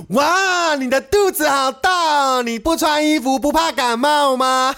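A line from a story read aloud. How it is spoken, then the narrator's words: Shouting. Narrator (Chinese): 小男孩 不停的大叫说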